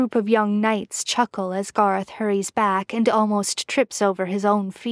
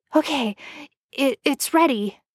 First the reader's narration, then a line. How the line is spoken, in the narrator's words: he says breathlessly